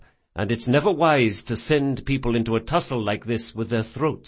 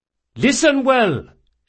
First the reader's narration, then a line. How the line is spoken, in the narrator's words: shouted Drakasha